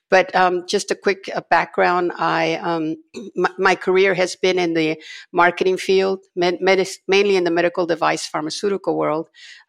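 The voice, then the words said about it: Slightly raspy, congested voice. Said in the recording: “I normally don't sound like this. I'm undergoing the annual gunk that comes out... so my voice sounds a little raspier”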